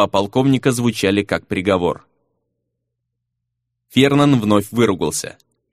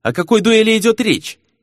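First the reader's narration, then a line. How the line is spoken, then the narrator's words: Sharp, curt. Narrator (Russian): резко бросила Рина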